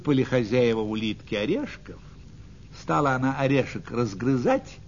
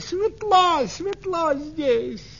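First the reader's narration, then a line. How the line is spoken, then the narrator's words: Snail shouting. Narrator (Russian): улитка закричала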